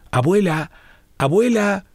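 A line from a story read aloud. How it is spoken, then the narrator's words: Child shouting. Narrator (Spanish): gritaba su nietecito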